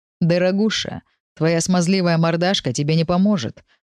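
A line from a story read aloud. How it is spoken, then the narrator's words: Smirking snort. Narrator (Russian): хмыкнул Кэмерон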